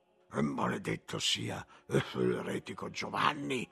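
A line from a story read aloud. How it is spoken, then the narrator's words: Grumbling. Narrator (Italian): brontolare Gerolamo di Caffa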